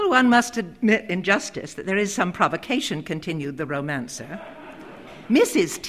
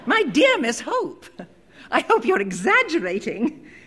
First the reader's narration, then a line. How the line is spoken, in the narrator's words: exclaimed the Quabbles in unison